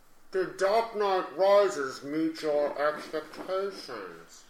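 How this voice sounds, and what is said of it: Bad Bane impression. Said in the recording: “A terrible Bane impression. ... I just wanted to get my Bane impression.”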